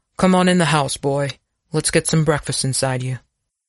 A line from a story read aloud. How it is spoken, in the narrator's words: Abner sighed, started to say something, thought better of it, and instead said